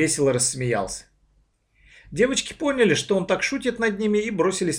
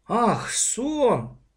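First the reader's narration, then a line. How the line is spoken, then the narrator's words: Drawn-out drawl. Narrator (Russian): протянул папа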